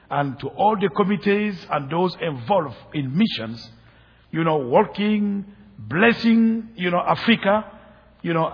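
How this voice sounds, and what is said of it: Speaks with a noticeable foreign accent. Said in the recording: “my accent”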